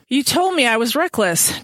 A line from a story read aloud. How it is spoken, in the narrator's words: Diana said breathlessly